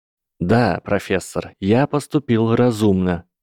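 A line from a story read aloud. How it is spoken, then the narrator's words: Calm reply. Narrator (Russian): спокойно ответил мальчик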